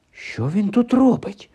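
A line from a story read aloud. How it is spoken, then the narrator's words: Whispered. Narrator (Ukrainian): прошепотів Гаррі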